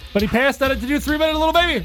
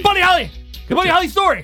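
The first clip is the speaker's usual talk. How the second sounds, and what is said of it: Yelling loudly. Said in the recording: “Why are you yelling?”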